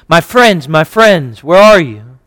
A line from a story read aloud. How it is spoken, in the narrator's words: In the hour of his anguish, he cried out because of his infinite spiritual sufferings